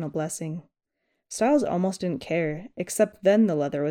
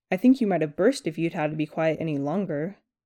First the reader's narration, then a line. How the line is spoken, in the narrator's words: said, chuckling